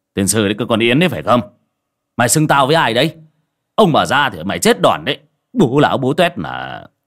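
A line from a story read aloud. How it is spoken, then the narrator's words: Irritated shout. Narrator (Vietnamese): Ông mà bực mình quát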